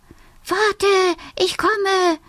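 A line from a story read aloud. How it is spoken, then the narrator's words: Small fox calling. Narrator (German): ruft der kleine Fuchs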